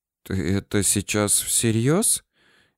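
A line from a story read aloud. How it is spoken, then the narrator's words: Hoarse question. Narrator (Russian): хриплым голосом спросила Зудилина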